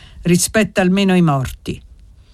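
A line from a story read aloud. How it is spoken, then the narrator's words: Grave, sad grandfather. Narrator (Italian): disse il nonno con voce grave e triste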